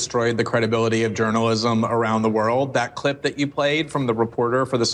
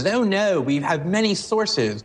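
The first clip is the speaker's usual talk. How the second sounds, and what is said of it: Put-on British accent. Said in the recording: “Glenn Greenwald's British accent”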